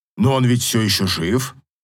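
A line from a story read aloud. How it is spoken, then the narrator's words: Snorting. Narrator (Russian): хмыкнул проф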